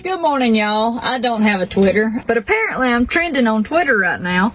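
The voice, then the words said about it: Country girl accent. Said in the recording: “she is a country girl... even her accent is bad... my accent should be illegal”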